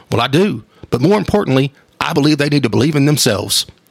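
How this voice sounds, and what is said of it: Not very good Ted Lasso impersonation. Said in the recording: “I don't do a very good Ted Lasso impersonation”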